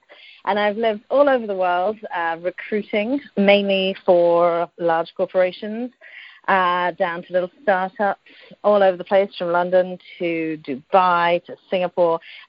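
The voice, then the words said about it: British accent. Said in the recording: “I'm British originally, as you might tell by the accent.”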